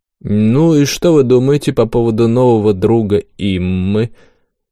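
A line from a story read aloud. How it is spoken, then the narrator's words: Drawl. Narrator (Russian): протянул Рандон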